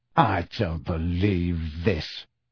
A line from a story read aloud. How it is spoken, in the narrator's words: snarled Harry